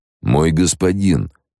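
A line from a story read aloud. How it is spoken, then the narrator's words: Warning exclamation. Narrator (Russian): предостерегающе воскликнул Тиеканик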